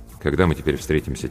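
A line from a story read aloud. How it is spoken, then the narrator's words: Quiet question. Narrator (Russian): тихо спросил я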